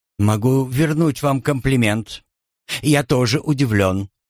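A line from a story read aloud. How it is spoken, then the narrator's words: Gently reproachful. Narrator (Russian): добавил он, будто хотел мягко ее пожурить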